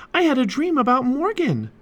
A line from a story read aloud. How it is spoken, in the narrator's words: exclaimed Annie